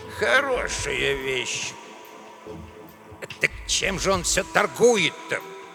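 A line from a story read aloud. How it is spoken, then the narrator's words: Grumble. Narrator (Russian): ворчал Эдуардо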